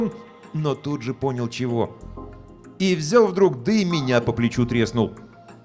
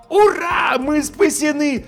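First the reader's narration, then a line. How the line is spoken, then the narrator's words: Joyful yell. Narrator (Russian): завопил я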